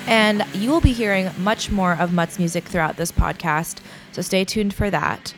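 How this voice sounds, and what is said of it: Nasal, congested voice from a cold. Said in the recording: “I do have a cold today, which is why I sound really nasally”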